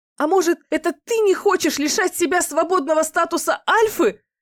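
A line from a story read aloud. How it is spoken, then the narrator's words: Shouting in the face. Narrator (Russian): выкрикнула тогда ему в лицо Фэй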